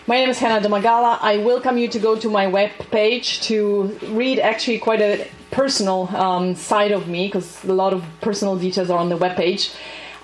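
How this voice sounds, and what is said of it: Polish or German accented English. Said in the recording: “I also have an accent. ... If you want to practice your Polish or German, you can speak with me in those two languages.”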